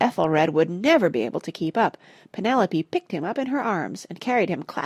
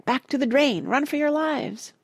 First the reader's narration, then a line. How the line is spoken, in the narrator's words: cried Parrot